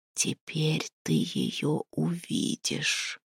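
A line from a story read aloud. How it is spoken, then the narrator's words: Whisper. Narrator (Russian): шепнул голос Хравна Черного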